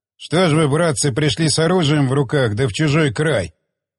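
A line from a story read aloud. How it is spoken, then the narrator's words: Grumbling. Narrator (Russian): проворчал Соловей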